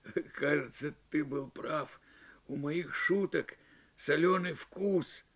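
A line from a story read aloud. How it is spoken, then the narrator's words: Hoarse laugh, then speech. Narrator (Russian): Джу хрипло рассмеялся и сказал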